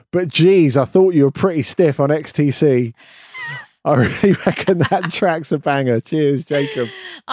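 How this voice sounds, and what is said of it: Put-on Australian accent. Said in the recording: “this is going to be hard not saying an Australian accent.”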